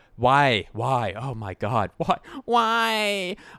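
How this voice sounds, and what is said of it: Wailing impression of distraught figure skater. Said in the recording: “do an impression of a of a female figure skater who just had her career ended by a psycho”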